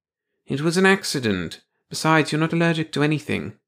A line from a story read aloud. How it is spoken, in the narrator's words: the psychiatrist said calmly